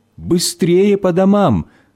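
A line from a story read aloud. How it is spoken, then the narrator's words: Parents shouting from afar. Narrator (Russian): родители, они еще издалека кричали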